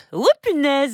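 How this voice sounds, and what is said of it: Imitates Homer Simpson cartoon voice. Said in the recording (French): “vous aimez les imitations?... j'ai tenté de faire Homer Simpson.”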